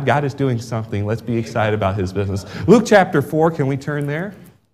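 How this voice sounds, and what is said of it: American accent. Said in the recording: “my accent... I never gained an English accent... Oh, you're an American.”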